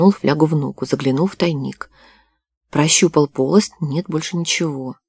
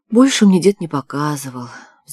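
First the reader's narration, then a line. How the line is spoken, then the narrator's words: Sighing. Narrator (Russian): вздохнул Николай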